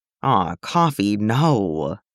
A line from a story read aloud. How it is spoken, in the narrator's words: sighs sadly